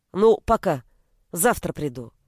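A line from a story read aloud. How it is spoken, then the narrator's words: Sharp. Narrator (Russian): Саша резко сказал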